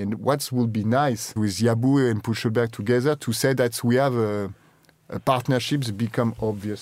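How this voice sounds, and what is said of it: French accent. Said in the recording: “I love the way you say our name with the French accent.”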